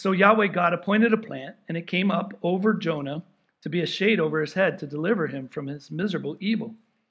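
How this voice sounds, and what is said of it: Hoarse, strained voice. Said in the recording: “Sorry, I'm losing my voice. I've been yelling too much”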